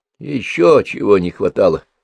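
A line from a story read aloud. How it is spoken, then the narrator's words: Muffled grumble, full mouth. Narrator (Russian): с полным ртом каши пробурчал Тимошка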